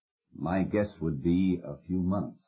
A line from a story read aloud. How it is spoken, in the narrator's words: said the doctor